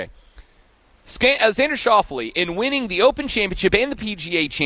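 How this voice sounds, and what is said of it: Usual voice. Nothing is said of it.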